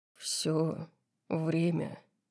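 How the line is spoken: Low growling voice. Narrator (Russian): ответил он низким рычащим голосом

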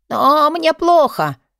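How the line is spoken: Old man wheezing. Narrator (Russian): захрипел пенсионер

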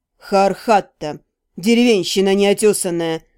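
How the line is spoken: Grumbling mutter. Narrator (Russian): пробурчал Кертен

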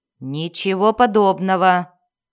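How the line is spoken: Giant's roar. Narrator (Russian): проревел исполин

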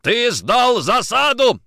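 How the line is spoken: Yelling. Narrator (Russian): орал Никитин

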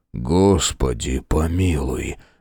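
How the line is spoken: Hopeless sigh. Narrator (Russian): безнадежно вздохнул Фрейзер

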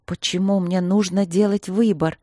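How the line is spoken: Trembling voice. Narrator (Russian): спросила я дрожащим голосом

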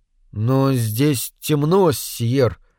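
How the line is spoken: Uncertain. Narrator (Russian): неуверенно сказал я

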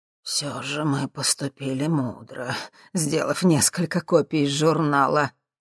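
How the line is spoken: Grumble. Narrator (Russian): проворчал Ипполит Германович

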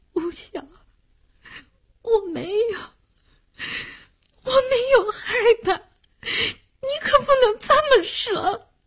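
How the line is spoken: Crying. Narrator (Chinese): 林星也哭了

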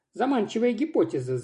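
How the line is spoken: Laughing. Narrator (Russian): засмеялась я

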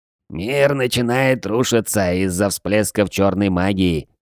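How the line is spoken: Creaky, quavering old voice. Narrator (Russian): проскрипел шаман дребезжащим голосом

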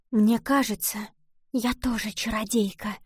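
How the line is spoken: Sudden whisper. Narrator (Russian): вдруг прошептала

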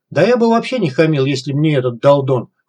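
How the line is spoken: Snorting. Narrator (Russian): хмыкнул псих

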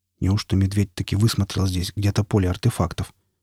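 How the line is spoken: Muttering. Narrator (Russian): пробормотал Никита

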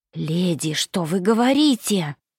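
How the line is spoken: Hissing woman. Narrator (Russian): прошипела баронесса Калани

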